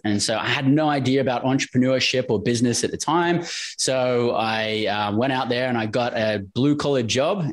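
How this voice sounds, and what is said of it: Australian English accent. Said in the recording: “we can tell from your accent you're not from Kansas City”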